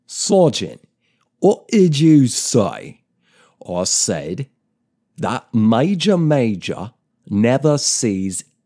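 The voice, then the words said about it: Alan Moore-style northern English accent. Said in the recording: “is it Manchester? Or maybe it's a bit further north... a sort of Alan Moore kind of accent”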